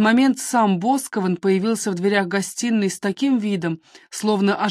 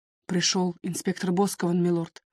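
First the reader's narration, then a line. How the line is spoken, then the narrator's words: Quiet. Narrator (Russian): тихо ответил Ходж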